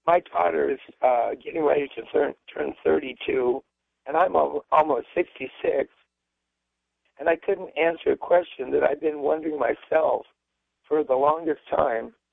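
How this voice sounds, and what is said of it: Hoarse, strained voice. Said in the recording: “have to pardon me, I have laryngitis I'm trying to get over”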